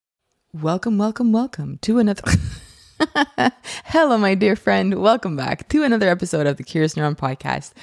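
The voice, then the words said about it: Put-on radio announcer voice. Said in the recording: “I was trying to be that radio voice”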